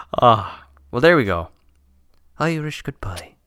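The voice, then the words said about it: Exaggerated put-on Irish accent. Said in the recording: “I shouldn't have done the accent. I already have one. ... Whenever they try Irish accents ... except for you just did there”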